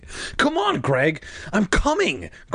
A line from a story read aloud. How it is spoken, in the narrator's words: Greg shouted